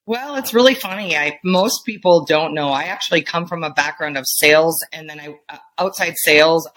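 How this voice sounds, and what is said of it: Wisconsin accent. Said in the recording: “You probably hear it in my voice. I'm from Wisconsin. ... Clocked it.”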